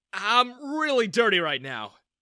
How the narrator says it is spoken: I exclaimed

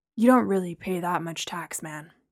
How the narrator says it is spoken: Steve muttered

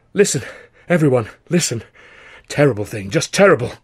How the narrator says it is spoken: he gasped, trying to get his breath back

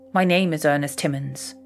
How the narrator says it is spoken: he said

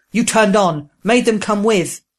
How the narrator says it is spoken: Proam roaring

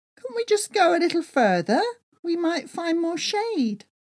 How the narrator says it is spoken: whined

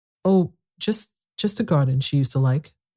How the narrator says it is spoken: Mary stammered

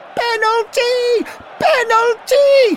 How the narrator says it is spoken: Henry screamed

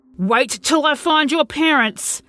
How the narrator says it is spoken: started to yell

